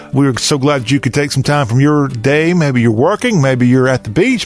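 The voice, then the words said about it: Southern American accent. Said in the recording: “Talk with a Southern accent. It's what we do”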